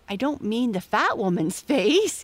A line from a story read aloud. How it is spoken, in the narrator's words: giggled Amy